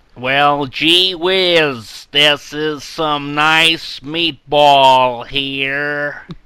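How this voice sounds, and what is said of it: Put-on American accent. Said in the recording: “can I hear your best American accent?... started off as like an American tourist with like a like a camera around their neck, and it turned into like someone from the Bronx.”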